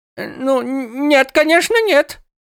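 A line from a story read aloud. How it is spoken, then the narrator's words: Humble babbling. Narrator (Russian): пролепетал Мекла, унижаясь перед Нилтарионом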